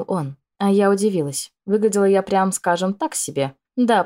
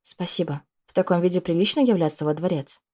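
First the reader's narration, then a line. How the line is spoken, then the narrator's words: Quiet question. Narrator (Russian): Так же тихо спросила я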